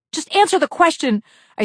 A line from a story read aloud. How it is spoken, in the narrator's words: I screamed at the nurse after she had told me it had only been 2 hours since her last morphine